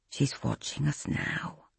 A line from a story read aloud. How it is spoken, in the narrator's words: she murmured into his ear